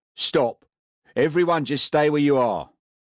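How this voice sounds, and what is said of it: Cockney accent. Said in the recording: “The Cockney accent of Maxwell's head of security was unmistakable.”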